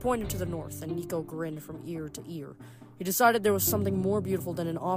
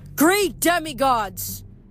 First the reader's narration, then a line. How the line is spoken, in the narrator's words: Reina's voice boomed as it projected from the statue itself, like the Athena Parthenos had become a stack of concert speakers